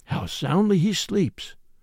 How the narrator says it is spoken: whispered the old gentleman

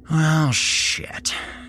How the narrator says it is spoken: I muttered

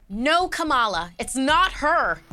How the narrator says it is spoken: Elena shouted

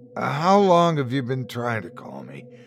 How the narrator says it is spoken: he said, his voice crackling

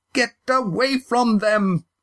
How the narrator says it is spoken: The shout

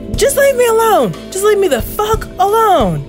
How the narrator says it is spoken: the girl screams

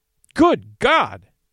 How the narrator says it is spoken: he cried

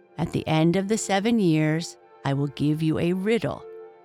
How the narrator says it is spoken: said

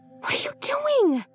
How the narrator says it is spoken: Lacey whispered harshly

